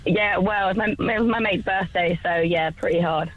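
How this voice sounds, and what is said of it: Hoarse voice. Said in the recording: “I'm a bit hoarse, sorry, from the weekend. ... Yeah, no, I can tell.”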